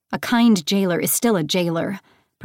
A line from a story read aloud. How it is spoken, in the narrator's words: Persephone snapped